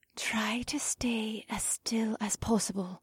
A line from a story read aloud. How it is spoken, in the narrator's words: Faye's voice whispered from behind me